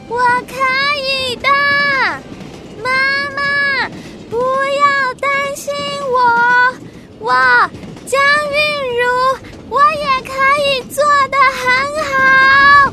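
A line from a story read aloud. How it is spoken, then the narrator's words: Shouting through cupped hands. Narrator (Chinese): 江韵如把双手放在自己的嘴巴旁边，开始大声的叫说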